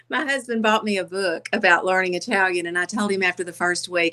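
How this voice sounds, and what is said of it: Southern American accent. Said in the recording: “How do you blend the Southern accent and the Italian accent? ... I don't think it's going to go well with the Southern accent.”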